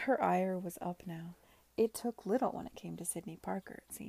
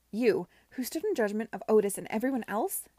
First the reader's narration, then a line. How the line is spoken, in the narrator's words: she cried